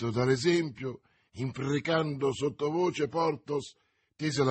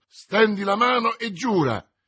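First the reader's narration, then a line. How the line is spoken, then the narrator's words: Exclaiming together. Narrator (Italian): esclamarono insieme Athos e Aramis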